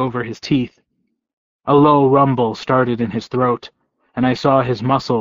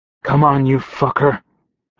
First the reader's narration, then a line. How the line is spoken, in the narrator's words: I said hoarsely